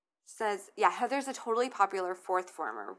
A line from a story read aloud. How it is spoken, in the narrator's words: Wendy answered quickly